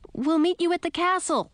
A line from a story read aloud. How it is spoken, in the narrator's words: shouted